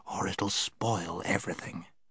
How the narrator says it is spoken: whispered Scrub

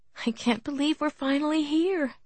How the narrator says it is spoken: Kathleen said excitedly

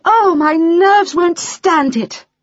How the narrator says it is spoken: cried Mrs

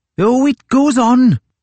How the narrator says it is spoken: shouted the seaman from his place at the oars

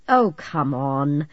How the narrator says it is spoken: Alan scoffed

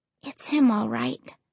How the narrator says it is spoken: I said quietly

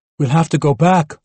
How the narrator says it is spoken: Mohammed wailed

